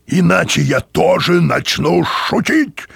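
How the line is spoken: Barked. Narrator (Russian): рявкнул он

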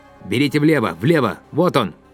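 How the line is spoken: Shouting. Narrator (Russian): Юрковский крикнул

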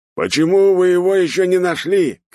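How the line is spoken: Little man shouting. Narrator (Russian): кричал мужичок

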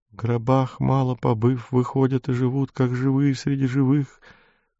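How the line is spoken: Thin, faltering mutter. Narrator (Russian): Тонкий прерывающийся голос бормотал

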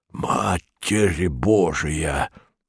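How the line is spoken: Muttered from behind. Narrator (Russian): пробормотал сзади Барбридж

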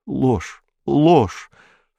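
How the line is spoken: Sobbing mutter. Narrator (Russian): всхлипывая, бормотал Киун

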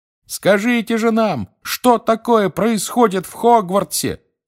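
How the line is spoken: Shouting from a window. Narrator (Russian): заорал из окна Фред

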